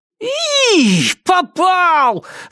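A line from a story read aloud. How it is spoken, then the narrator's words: Squeal. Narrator (Russian): завизжал он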